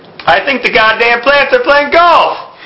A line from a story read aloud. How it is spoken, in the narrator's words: Margaret exclaimed